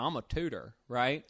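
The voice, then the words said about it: Put-on southern accent. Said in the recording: “the guy had a southern accent”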